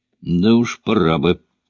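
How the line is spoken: Grumbling. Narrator (Russian): проворчал Джей

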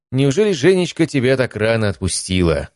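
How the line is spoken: Snide question. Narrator (Russian): ехидно спросил Василий Анатольевич

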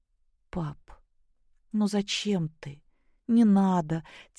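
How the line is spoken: Quiet. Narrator (Russian): тихо проговорила Наташа

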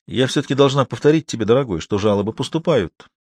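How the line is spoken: Plain. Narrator (Russian): сказала Вера

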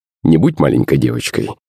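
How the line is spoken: Scoffing. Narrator (Russian): хмыкнул Иван

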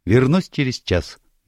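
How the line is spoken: Cheerful. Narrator (Russian): весело пообещала

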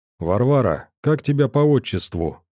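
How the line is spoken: Cheerful question. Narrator (Russian): бодро спросил

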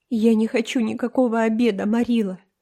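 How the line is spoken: Sobbing voice. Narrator (Russian): сказала Энн рыдающим голосом

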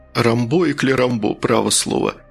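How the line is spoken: Chuckling minister. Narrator (Russian): министр хохотнул

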